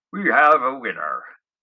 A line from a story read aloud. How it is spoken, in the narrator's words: Michael announced